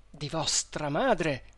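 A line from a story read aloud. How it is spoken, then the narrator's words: Crying male exclamation. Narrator (Italian): esclamò egli piangendo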